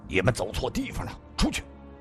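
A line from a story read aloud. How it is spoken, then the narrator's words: Big man, stern. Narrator (Chinese): 大汉迎了上去，厉声地说道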